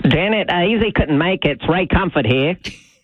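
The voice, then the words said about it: Imitates another person's accent. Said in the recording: “How'd you like that accent, Janet?”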